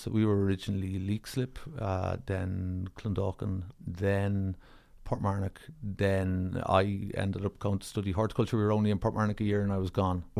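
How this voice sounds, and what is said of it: Soft country accent. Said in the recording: “your accent is not what I would associate them. I would say soft country in a way.”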